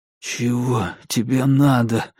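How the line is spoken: Whispered. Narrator (Russian): прошептал я

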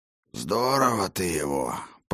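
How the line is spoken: Hoarse rasp. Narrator (Russian): прохрипел он

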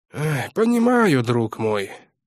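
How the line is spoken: Sigh. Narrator (Russian): вздохнул Городницкий

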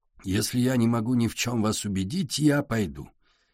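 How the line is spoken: Quiet. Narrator (Russian): тихо сказал Портнов

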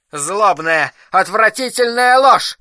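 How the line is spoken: Outburst. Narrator (Russian): выкрикнул Улман

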